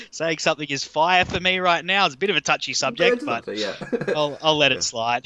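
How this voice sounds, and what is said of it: Australian accent. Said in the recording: “I live in Australia, for those who can't tell by the accent.”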